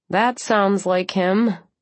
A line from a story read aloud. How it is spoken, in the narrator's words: I said dryly